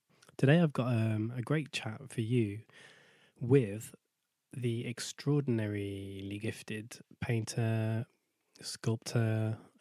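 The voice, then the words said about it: Strained voice from a cold. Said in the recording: “I've been suffering with a cold for the last 4 days. You can probably tell my voice is a little bit strained”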